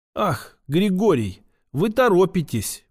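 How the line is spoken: Whisper. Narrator (Russian): прошептала она

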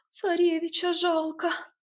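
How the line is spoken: Thin sobbing girl. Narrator (Russian): тоненько всхлипнула какая-то впечатлительная девица

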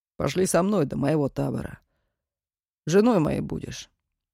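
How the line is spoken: Calm offer. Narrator (Russian): Митька совершенно спокойно предложил

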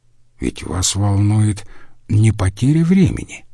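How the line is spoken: Soft speech. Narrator (Russian): мягко проговорил Иорданус

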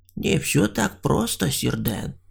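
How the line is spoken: Grim reply, hunter. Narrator (Russian): мрачно ответил охотник

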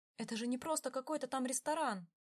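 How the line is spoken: Exclaimed. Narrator (Russian): воскликнула Бьянка

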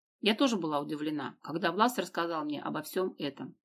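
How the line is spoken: Plain. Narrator (Russian): ответила Дина

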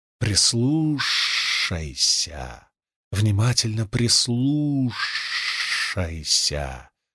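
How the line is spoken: Hissing. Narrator (Russian): шипела она

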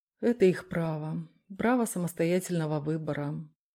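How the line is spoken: Gloomy reminder. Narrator (Russian): мрачно напомнил Дронго

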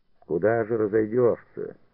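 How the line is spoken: Calm reply from workers. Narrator (Russian): спокойно ответили ему рабочие из ближних рядов

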